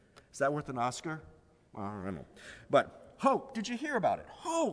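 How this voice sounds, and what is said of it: Usual voice. Nothing is said of it.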